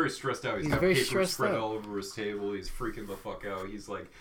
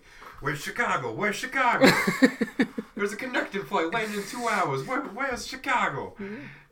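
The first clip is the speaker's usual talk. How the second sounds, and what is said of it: Put-on accent, upset character voice. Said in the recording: “I don't know why he has that accent, but he's going a little upsetty.”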